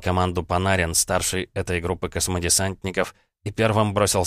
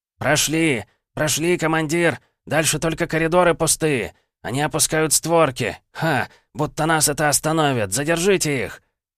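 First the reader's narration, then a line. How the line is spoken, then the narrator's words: Soldier shouting. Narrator (Russian): кричал боец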